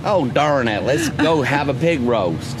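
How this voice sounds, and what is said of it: Put-on American Southern accent. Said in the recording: “your best American accent ... Let's start with the South ... That's pretty good.”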